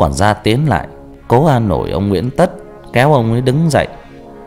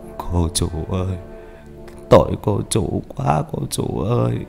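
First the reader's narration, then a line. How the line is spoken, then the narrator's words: Tearful muttering. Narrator (Vietnamese): Ông cũng tuôn rơi hai dòng lệ, miệng lẩm bẩm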